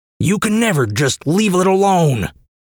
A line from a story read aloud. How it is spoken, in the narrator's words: his father bellowed